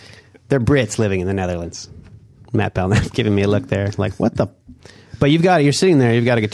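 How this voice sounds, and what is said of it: Usual voice. Nothing is said of it.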